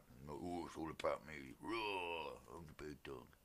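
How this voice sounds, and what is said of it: Imitates another person's voice. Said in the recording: “my Roman Reigns impression”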